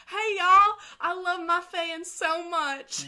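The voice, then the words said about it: Fake country accent. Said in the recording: “faked her, like, country accent”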